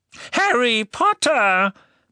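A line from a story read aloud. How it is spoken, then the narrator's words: Excited squeak. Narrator (German): quiekte eine aufgeregte Stimme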